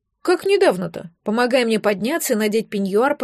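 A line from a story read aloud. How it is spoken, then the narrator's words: Grumbling. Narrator (Russian): проворчала Ирина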